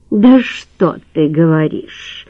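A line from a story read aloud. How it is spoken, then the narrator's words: Drawling, smirking. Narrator (Russian): протянула она и усмехнулась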